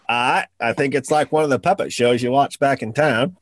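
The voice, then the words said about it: Put-on Australian accent. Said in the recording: “Now I'm doing the Australian accent.”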